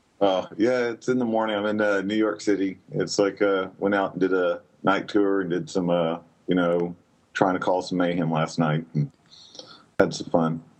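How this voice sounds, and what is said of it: Sleepy, tired-sounding voice. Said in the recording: “You sound sleepy.”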